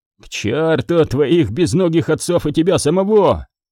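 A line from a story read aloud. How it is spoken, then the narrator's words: Shouting. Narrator (Russian): заорал Гидеон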